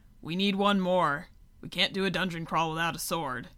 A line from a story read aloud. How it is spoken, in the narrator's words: a really buff ogre grumbled